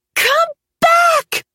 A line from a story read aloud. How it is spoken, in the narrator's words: She screamed